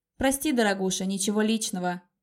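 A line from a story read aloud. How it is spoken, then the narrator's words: Caustic mocking. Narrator (Russian): ответил ему Коста его же словами и таким же едким ехидным тоном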